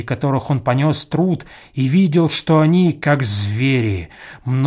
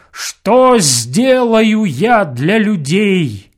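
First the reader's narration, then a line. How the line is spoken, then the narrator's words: Shout louder than thunder. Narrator (Russian): сильнее грома крикнул Данко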